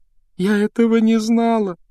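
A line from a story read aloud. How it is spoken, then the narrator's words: Sobbing. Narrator (Russian): рыдала Джинни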